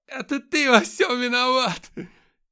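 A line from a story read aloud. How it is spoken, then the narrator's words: Hysterical screaming woman. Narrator (Russian): Истерично закричала женщина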